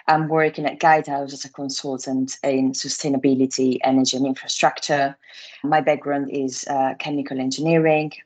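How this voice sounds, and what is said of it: Italian accent. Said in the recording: “I'm Italian, as you might guess from my accent.”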